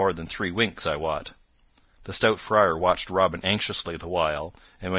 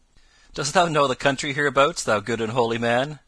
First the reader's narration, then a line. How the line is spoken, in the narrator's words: asked Robin, laughing